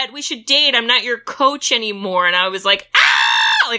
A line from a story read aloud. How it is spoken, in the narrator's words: I screamed